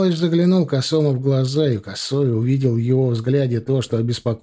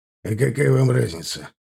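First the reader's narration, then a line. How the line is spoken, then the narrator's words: Snorting. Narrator (Russian): хмыкнул Михалыч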